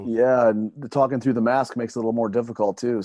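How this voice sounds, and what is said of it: Hoarse, worn-out voice. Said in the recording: “If you can't tell by my voice, I kind of lost it this week ... you do sound a little bit like you've been talking all week”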